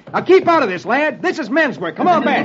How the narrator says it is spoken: Roy shouts

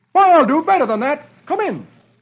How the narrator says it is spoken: Dagwood replies cheerfully

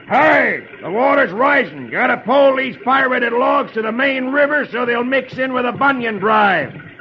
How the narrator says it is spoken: Etch yells

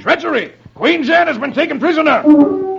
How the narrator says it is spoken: King Agwar chuckles

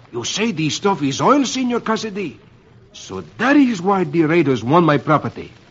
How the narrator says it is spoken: Don Ramon exclaims

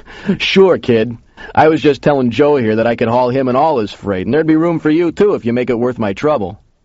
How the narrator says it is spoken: The big guy laughed and said

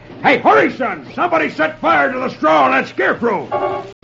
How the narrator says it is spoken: hears one shout

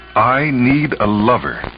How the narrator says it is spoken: she said firmly to herself

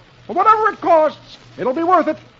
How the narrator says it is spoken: Dagwood says cheerfully

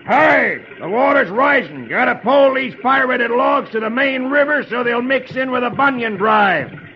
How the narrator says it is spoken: Etch yells

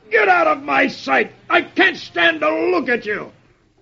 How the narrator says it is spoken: the sergeant, aching from the two kicks, roars

